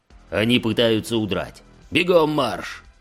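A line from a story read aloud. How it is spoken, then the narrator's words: Roared. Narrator (Russian): взревел Ран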